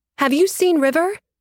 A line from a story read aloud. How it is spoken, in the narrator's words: I shouted at Dante Weatherly